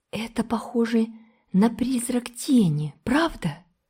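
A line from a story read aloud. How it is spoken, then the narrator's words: Whispering. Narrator (Russian): прошептала Энн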